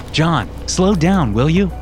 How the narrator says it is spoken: I asked

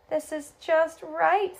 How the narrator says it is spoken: said Barney happily

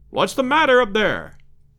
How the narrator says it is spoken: shouted Roxton from below

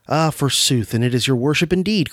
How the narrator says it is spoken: cried the old dame

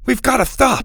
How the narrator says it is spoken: Max said desperately

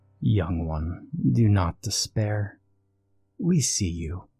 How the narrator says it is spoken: the woman spoke softly

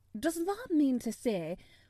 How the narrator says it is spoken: cried Martha

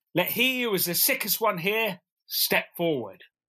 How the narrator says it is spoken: Howleglass, he called out

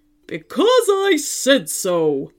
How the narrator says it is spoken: roared the robot dinosaur

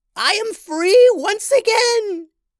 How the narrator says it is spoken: the witch queen shrieked

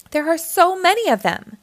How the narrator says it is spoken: exclaimed Lucy

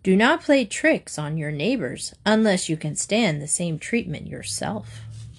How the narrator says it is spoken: When the fox lost his temper, the stork said calmly

